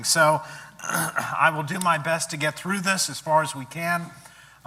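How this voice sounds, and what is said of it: Hoarse, lower voice from laryngitis. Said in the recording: “struggling with a little bit of laryngitis ... I'm probably going to speak in a somewhat lower voice today”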